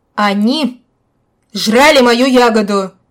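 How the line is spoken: Shouting again. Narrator (Russian): вновь закричал он

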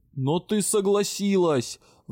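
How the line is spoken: Betrayed, roaring. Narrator (Russian): взревел обманутый в лучших надеждах лорд-директор

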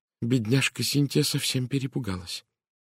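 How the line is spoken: Clear quiet voice. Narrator (Russian): произнесла миссис Кавендиш четким тихим голосом

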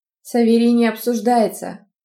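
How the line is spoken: Menacing growl. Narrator (Russian): грозно прорычал Амаль

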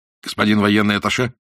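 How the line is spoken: Sharp question. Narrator (Russian): резко спросил Иннокентий

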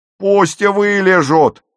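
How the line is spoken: Yelled. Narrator (Russian): орала

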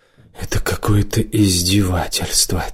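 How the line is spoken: Quiet whisper under breath. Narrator (Russian): тихо прошептал он себе под нос

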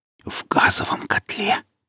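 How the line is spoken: Whispered. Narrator (Russian): прошептала я

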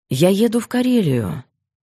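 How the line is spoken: Calm, thoughtful. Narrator (Russian): говорил он спокойно, даже задумчиво

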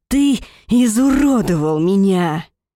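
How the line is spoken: Growling. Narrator (Russian): Рычание вырывается с последней фразой

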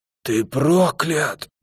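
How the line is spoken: Drugged old man's rasp. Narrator (Russian): прохрипел старик непослушными губами, стоило злой химии влиться в кровь, а маске отойти от лица

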